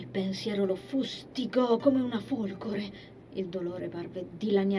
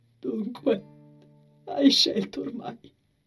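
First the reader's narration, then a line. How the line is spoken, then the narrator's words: Murmured, unsteady voice. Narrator (Italian): mormorò con voce instabile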